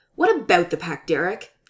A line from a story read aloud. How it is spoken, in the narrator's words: snaps